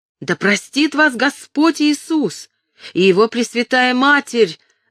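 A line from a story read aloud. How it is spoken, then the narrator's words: Shouting. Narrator (Russian): закричала она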